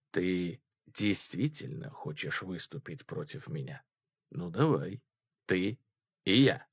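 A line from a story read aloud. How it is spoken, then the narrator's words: Quiet. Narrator (Russian): тихо сказал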